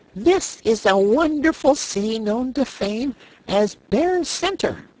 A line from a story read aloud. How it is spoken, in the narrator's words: the little brown bear said in a proud and impressive voice, although it still squeaked